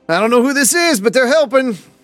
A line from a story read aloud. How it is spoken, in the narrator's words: Deacon yells out